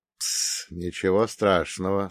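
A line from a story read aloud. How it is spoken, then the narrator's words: Soft. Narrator (Russian): сказала я мягко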